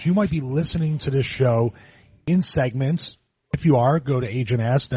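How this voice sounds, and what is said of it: Booming deep radio voice. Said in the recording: “great radio voice ... Great radio voice. Booming, deep voice,”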